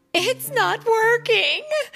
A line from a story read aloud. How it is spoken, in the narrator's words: Daisy groaned